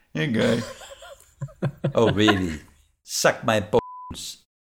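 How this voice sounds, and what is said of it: Nandor impression. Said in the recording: “I can do a Nandor voice better than that ... There's something weird with the way that you shape your mouth around his vowels that is Nandor to me”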